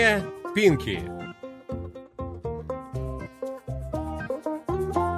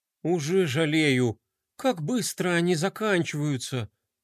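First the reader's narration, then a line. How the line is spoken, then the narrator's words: Sighing. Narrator (Russian): вздохнул Рома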